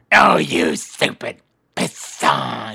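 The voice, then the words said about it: Hissing snake-like cartoon villain voice. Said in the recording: “He always do that snake voice.”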